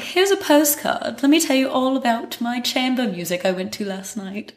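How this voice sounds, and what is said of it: Put-on accent, done well. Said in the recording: “Love the accent. ... It's so good.”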